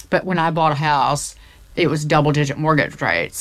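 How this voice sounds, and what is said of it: Put-on Southern US accent. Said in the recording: “I'm going to do the Southern accent”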